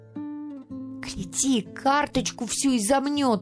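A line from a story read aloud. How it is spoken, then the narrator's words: Sudden shouting. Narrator (Russian): вдруг кричала Гранька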